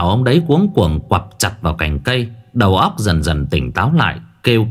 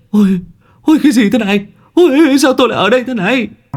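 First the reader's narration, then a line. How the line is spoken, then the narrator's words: Shrieking. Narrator (Vietnamese): mấy ông rú lên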